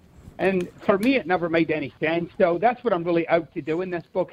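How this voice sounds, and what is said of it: Scottish accent. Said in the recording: “You have a great accent... I'm originally from Scotland... I recognize the Scottish accent when I hear it”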